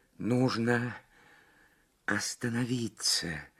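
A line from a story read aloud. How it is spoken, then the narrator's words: Strained whisper. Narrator (Russian): с трудом прошептала Лабисквей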